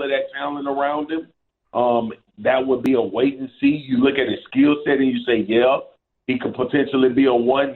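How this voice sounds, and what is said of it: Louisiana accent. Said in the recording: “unmistakable voice, that accent, that's a Louisiana accent.”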